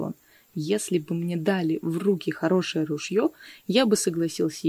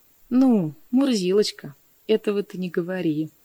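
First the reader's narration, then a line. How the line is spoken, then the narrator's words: Laughing remark. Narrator (Russian): заметил ему, смеясь, Чумилка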